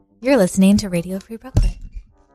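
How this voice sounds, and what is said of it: Announcer-style radio voice. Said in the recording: “Nice radio voice.”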